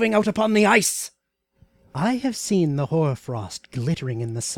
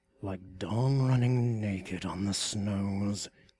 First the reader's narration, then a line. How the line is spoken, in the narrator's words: he muttered, his eyes burning like those of a wolf